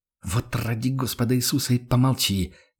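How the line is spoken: Angry hiss. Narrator (Russian): прошипел Карл Штефан разозленно

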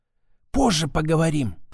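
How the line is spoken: Whisper. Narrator (Russian): шепнула она

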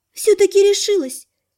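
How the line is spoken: Sighing. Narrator (Russian): Лана вздохнула

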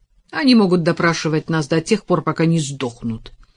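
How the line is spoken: Sharp exclamation. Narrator (Russian): резко воскликнул Том

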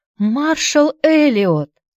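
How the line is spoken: Embarrassed, horrified exclamation. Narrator (Russian): воскликнула Аня в смущении и ужасе

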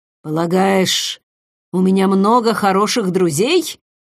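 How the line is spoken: Grumbling mutter. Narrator (Russian): пробурчал он

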